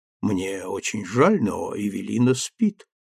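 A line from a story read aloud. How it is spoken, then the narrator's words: Soft, after a pause. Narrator (Russian): мягко сказала она, помолчав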